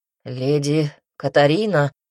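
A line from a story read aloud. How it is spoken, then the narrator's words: Hoarse breathless exclamation. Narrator (Russian): хрипло выдохнул блондин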